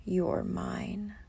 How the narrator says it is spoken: he growls

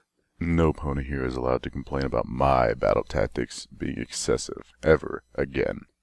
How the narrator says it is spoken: he grumbled

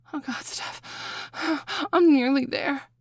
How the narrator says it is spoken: I gasp

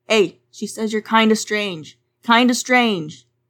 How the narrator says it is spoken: Arnold Friend cried

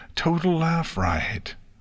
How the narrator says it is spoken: Spike, who had rolled onto his back and was holding his stomach, managed to quell his laughter just long enough to say

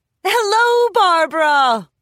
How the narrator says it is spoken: Wendy shouted

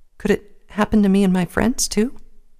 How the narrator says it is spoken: asked quietly

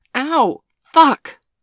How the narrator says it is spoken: Bailey cried out

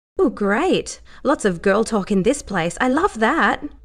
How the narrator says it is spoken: Brittany said cheerfully

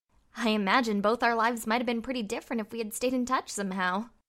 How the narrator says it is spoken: Twilight said with a slightly sardonic laugh

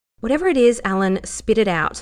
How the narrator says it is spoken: Lara said firmly

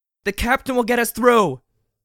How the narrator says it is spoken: she yelled

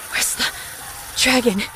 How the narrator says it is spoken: I panted

